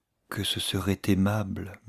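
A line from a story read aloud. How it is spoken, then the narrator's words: Murmured. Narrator (French): murmura-t-elle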